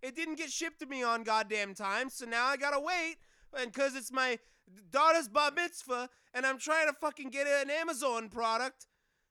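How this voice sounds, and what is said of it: Exaggerated New York accent. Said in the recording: “he's got to have a New York ... Boston accent.”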